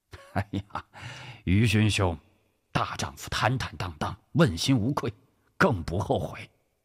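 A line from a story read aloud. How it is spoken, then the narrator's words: Laughing reply. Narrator (Chinese): 陈宝仓笑着答道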